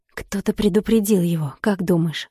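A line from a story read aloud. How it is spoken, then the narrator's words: Quiet question. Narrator (Russian): спросил тихо Фёдор председателя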